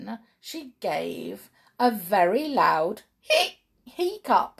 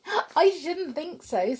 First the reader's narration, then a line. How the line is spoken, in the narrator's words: said Sheila, and she giggled again